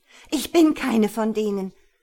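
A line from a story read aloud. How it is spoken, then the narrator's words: Angry shout. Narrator (German): rief Jana wütend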